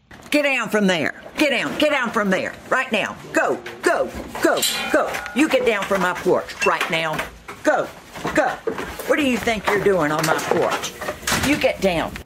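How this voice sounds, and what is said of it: Stern, commanding teacher voice. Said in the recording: “She uses her sternest teacher voice and lets the bear know who's the boss ... teacher voice”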